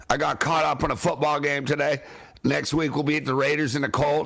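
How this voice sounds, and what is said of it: Worn-out, less loud voice. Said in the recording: “I'm not as loud or as powerful as I normally am ... some of my voice is shot”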